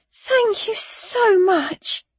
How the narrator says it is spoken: Annabelle cried as we reached them and got our breath back from the climb

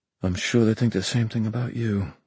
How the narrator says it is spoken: Mark muttered

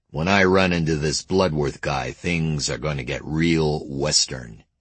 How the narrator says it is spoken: he growled

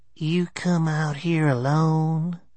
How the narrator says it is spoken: His voice was raspy and so soft I could barely hear him, but it had a discernible chill

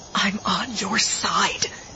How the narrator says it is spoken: she whispered

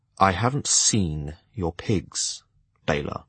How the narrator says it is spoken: In a low, gratingly civil voice, I replied

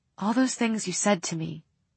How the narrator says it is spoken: she said in a half-whisper

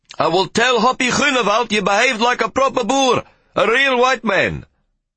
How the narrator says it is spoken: As we departed with a great chuffing sound that seemed too big for the little coffee-pot engine, Henny shouted

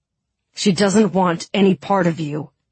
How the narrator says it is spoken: Mal spat

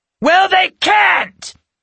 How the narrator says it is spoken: Natasha screeched

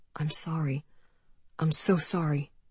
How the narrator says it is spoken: his voice murmuring over and over

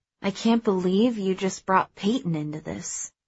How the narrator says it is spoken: I lowered my voice, then said

